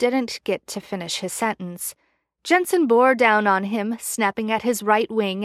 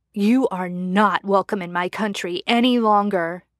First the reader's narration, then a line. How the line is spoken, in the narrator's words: Jensen snarled